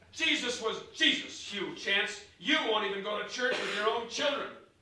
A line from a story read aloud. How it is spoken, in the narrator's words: Mama snapped